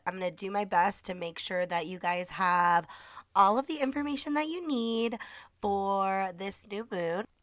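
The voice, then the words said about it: Congested voice. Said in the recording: “forgive my voice. I've been on the mend and I'm still a little bit congested”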